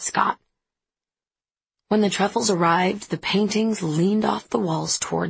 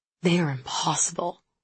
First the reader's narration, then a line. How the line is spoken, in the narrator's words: Simone said under her breath